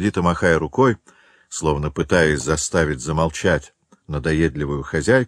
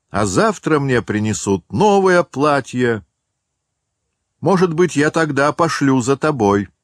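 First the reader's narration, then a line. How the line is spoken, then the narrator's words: Woman shouting after someone. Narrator (Russian): хозяйка крикнула ему вслед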